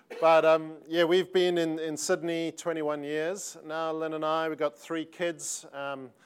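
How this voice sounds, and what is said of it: South African accent. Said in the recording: “I keep forgetting that actually still sounds South African. It's hard to get away from the accent.”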